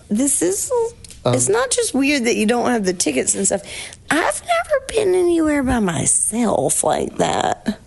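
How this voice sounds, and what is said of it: Southern American accent. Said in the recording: “Yours just sounds so much sweeter with your southern accent.”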